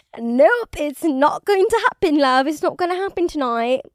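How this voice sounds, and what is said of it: Put-on British accent. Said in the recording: “if I am speaking in this British accent”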